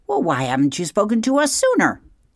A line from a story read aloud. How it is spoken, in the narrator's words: screeched the owl from higher up in the tree